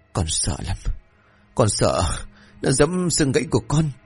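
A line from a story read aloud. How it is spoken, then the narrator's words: Whimpering. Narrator (Vietnamese): Cường rên rỉ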